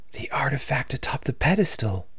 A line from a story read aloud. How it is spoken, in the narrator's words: Eden whispered, her voice filled with certainty